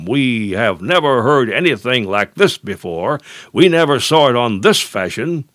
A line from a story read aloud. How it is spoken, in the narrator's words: stand aghast and exclaim